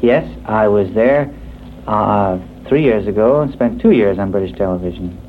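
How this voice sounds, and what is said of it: Slight British accent. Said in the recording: “do I detect a slight British accent?”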